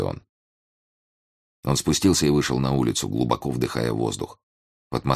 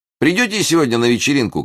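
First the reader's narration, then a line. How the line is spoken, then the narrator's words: Shouted after someone. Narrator (Russian): крикнул ему Джим вслед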